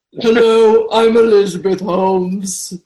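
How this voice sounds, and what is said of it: Elizabeth Holmes impression, deep voice. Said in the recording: “there's that famous deep voice of hers”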